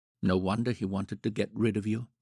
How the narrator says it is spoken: murmured

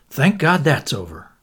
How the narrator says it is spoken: murmured Bundle to Anthony

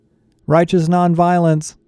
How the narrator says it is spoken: Connor called out

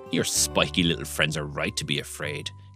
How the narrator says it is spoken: Griselda sneered

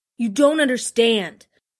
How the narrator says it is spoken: she pleaded

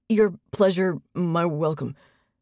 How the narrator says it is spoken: he stuttered

